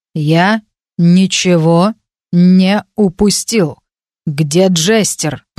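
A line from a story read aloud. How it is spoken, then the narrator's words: Growled. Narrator (Russian): прорычал тот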